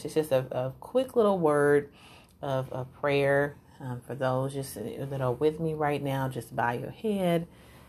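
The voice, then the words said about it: Southern drawl. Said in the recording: “my southern drawl just came out”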